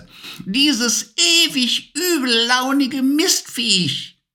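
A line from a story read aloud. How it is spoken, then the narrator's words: Witch's croaking voice. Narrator (German): krächzte die Stimme der Hexe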